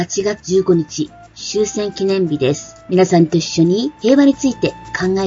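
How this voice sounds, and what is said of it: Usual voice. Nothing is said of it.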